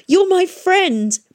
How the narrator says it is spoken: he shouted

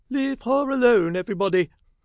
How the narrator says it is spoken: cried Mrs

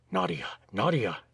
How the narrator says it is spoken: he said in a low voice

